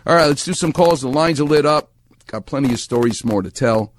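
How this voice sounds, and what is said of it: New York accent. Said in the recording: “He talks like me. I talk like him. Water, idea, soda. ... That's a New York accent. That's a Far Rockaway accent.”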